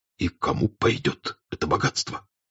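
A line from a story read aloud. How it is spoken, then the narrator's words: Whisper. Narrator (Russian): прибавил он шепотом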